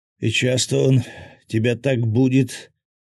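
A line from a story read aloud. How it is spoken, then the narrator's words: Groan. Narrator (Russian): простонал с заднего кресла Свят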